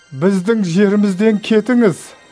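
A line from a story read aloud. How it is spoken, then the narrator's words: Pleading. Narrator (Kazakh): деп өтінді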